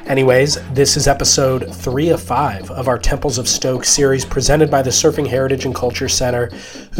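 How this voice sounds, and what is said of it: Weird-sounding voice, head cold. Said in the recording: “If my voice sounds weird, it's because I'm persevering a cold.”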